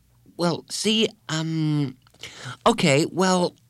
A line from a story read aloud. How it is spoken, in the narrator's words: stammered Colleen